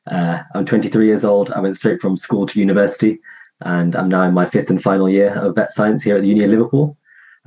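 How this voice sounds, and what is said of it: English accent, not American. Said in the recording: “You can probably tell from the accent that I'm not from the States.”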